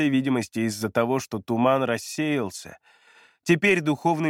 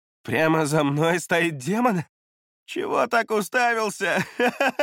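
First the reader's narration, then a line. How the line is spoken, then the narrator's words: Laughing. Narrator (Russian): Засмеялся Вэй Юй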